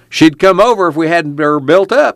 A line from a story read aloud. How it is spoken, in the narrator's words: he cried